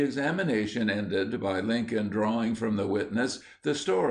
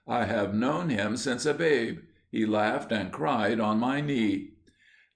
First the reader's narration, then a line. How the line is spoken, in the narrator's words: answered in a deep, quavering voice